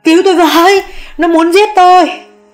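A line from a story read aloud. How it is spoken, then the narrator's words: Terrified scream. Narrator (Vietnamese): Bên trong mụ Hường thét lên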